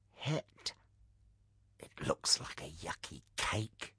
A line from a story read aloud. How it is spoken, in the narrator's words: whispered back